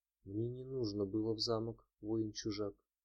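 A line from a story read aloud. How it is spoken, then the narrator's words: Quiet. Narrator (Russian): тихо промолвила Эржебет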